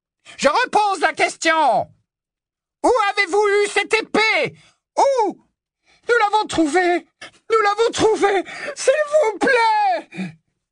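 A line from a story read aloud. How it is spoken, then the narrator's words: Screamed. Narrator (French): hurla Hermione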